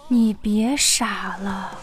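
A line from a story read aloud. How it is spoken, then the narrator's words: Soft. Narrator (Chinese): 公主轻声说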